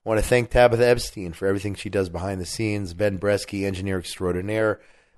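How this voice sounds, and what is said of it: Weak, strained, nearly lost voice. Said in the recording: “I am hanging by a thread, as they say, my voice is.”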